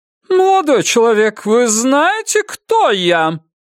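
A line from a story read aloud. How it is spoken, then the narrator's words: Loud, commanding question. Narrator (Russian): громко и властно спросила она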